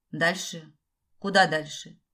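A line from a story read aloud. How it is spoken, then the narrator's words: Flat colorless question. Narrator (Russian): Бесцветным голосом спросила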